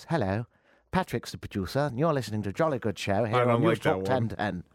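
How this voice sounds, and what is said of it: Put-on English received pronunciation accent. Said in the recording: “English, RP, received pronunciation, which is not what I speak. It's more like this.”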